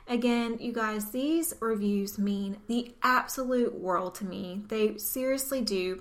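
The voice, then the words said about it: Southern American twang. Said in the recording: “her southern twang ... the southern accent”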